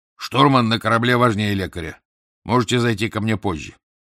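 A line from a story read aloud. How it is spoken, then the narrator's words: Stern. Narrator (Russian): Дезасар строго сказал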